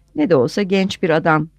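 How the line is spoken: Laughing. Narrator (Turkish): dedi Foscari gülerek

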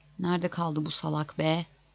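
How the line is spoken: Grumbled. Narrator (Turkish): diye homurdandı

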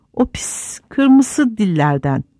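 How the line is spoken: Hissing. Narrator (Turkish): diye tısladı Gollum

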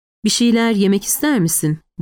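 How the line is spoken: Calm voice. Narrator (Turkish): Eve sakin bir sesle

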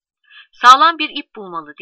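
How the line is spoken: Shouted from crowd. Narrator (Turkish): diye bağırıyor kalabalığın içinden

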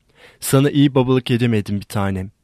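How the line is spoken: Plain. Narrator (Turkish): dedi

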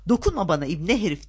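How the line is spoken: Shouted. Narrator (Turkish): diye bağırdı

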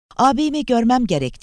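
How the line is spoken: Shouting. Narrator (Turkish): diye bağırdı

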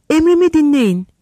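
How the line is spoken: Sweet shout. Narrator (Turkish): diye bağırdı tatlılıkla

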